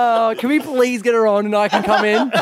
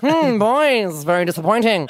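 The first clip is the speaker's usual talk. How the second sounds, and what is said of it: Imitation sounding like Davros. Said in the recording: “do Cornelia Francis ... Why does she sound like Davros now?”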